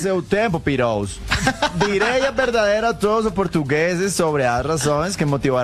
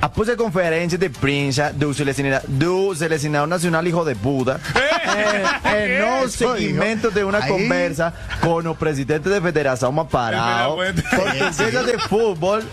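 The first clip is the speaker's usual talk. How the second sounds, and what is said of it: Mock Portuguese accent like Cristiano Ronaldo. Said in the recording (Spanish): “Voy a leerlo en el idioma de Cristiano Ronaldo... en el acento... En el acento.”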